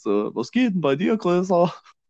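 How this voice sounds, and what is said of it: Put-on strong Saxon German accent. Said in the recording (German): “so einen richtig krassen sächsischen Akzent ... einen sächsischen Akzent”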